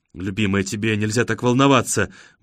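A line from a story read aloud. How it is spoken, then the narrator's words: Mumbling. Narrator (Russian): бормочет Джеймс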